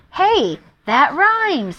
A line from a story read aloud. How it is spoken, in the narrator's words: he cried